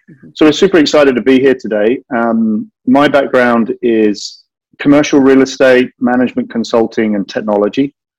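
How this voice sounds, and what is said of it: British accent. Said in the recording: “I obviously have this slightly funky accent. And I'm from the UK”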